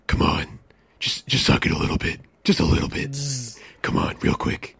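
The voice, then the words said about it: Imitates Batman's voice. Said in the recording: “my impression ... This is my impression real quick of Batman trying to get some”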